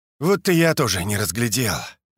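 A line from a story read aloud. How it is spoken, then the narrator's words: Sighing. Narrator (Russian): вздохнул Лосенок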